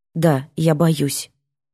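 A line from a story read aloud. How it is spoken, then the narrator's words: Quiet. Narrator (Russian): говорю тихо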